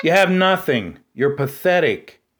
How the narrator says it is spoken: shouted an elderly woman

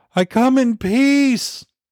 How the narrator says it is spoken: Bob wailed

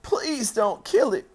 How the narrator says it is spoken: sobbed

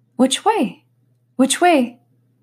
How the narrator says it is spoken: said anxiously to herself

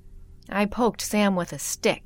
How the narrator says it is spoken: said

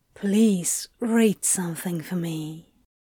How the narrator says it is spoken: Crowley tempted softly

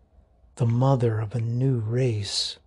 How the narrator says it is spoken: Theodore whispers

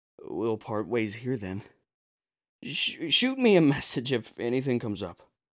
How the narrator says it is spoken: In a hoarse voice, I continued

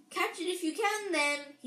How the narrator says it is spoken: he shouted

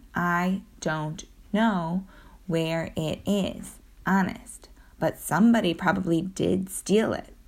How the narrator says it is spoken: I said

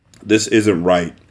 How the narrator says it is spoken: Ethic said

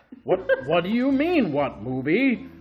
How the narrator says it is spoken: Dean exclaimed

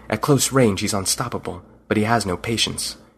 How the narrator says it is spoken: He whispered

